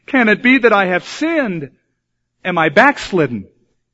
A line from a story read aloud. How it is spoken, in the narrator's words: Alarmed, exclaimed